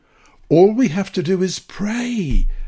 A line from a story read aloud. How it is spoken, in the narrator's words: she exclaimed